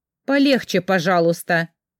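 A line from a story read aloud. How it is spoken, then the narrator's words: Grumbling. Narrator (Russian): проворчала я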